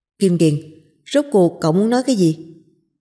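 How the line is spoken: Stern, loud question. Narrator (Vietnamese): Trịnh Tiểu Liễu thầm thở dài, nghiêm mặt lại, cao giọng hỏi

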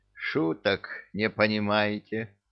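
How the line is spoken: Sighing old woman. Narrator (Russian): вздохнула баба-яга

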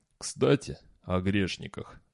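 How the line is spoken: Weak voice. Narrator (Russian): добавил он слабым голосом

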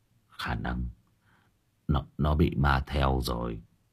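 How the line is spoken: Father's tired voice. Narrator (Vietnamese): Bố tôi nói bằng giọng mỏi mệt

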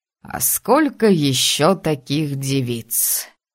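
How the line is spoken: Drawling. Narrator (Russian): протянул Виктор

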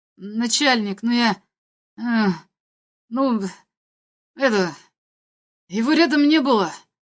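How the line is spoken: Mumbled. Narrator (Russian): промямлил обвиняемый

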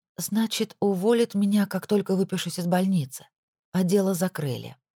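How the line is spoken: Tired. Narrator (Russian): устало произнесла Пенелопа

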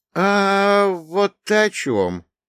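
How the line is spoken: Understanding drawl. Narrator (Russian): понятно протянул я

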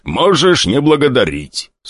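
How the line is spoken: Smiling demonic growl. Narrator (Russian): с улыбкой прорычал демон

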